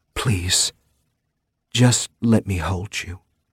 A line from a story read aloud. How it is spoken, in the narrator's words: she whispered against my lips